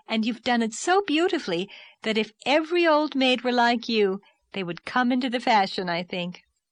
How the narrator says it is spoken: laughed Anne

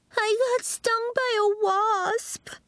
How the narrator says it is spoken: Violet whimpered

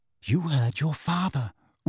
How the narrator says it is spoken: whispered Mrs

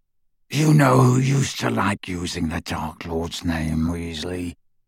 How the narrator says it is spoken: growled Greyback

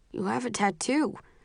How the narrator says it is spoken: he says, his voice muffled

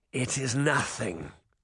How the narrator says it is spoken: the old man said, but his voice was pained

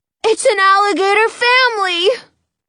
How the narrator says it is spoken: Jonah cries

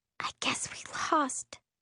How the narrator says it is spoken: Miri whispers

